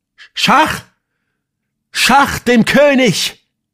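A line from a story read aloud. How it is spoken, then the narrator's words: Startlingly loud shout. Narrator (German): schrie derart laut, dass wir alle zusammenfahren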